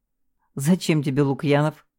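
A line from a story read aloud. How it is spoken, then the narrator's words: Scoffing. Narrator (Russian): хмыкнула я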